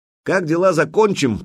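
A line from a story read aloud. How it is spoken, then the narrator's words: Shouted after someone. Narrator (Russian): крикнул ему вслед князь воевода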